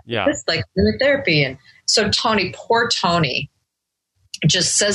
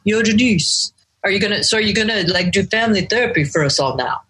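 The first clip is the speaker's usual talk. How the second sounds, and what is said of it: Poor imitation of Tony's accent. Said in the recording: “Sorry about the accent. I cannot imitate them”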